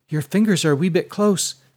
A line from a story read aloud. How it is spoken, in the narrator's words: said Ashlyn nervously